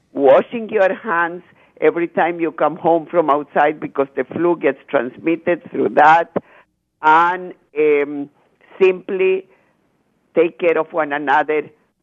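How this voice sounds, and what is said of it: Soothing Chilean Spanish accent. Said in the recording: “I love your accent ... Is it Romanian ... Spanish, Chile ... It's so soothing to listen to it.”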